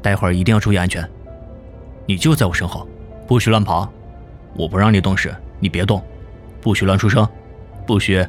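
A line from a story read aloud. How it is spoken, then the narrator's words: Gentle, tender. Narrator (Chinese): 冯耀 温柔的说道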